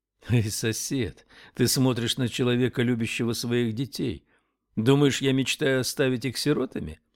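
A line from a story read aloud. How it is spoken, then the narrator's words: Laughing. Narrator (Russian): рассмеялся Спилмонт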